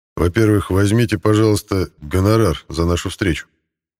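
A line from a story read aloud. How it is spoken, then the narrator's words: Even voice. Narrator (Russian): ровным голосом начал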